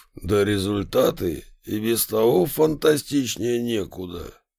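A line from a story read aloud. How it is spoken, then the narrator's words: Approving booming voice. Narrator (Russian): одобрительно прогудел генсек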